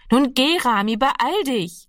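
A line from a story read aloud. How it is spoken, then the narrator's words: Calling out again. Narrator (German): rief ihm Annegret noch einmal zu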